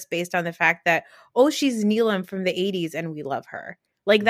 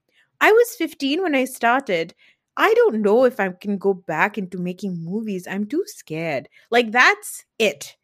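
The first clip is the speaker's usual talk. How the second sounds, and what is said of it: Imitates another person's voice. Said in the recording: “That's a good Neelam accent”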